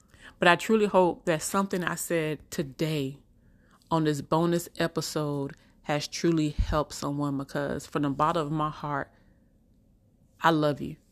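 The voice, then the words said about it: Country drawl accent. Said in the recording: “I know I'm country at times. I have that country drawl”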